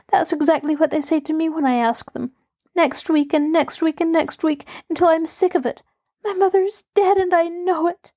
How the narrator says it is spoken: she sobbed

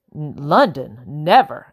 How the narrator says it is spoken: exclaimed

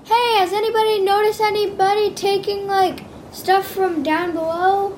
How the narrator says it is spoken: I scream out

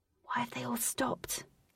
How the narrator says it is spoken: Katie whispered to Wraith

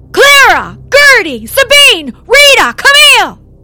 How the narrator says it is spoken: She shrieked

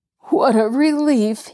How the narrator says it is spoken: he gasped

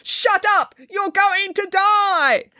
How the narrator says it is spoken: her inner voice would shout down these rational thoughts by yelling

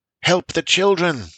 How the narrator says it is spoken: the Elder Seer cried out

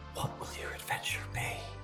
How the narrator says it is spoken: you hear a voice whisper

